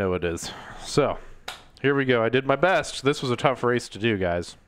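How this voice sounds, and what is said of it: Usual voice. Nothing is said of it.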